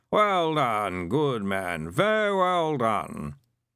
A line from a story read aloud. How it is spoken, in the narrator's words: Someone said in a sleepy sort of voice